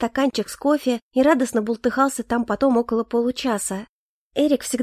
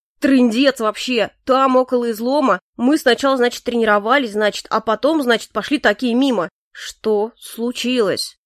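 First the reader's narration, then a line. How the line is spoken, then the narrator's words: Measured, stern, cold voice. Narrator (Russian): раздельно произнес Калипсо строгим холодным голосом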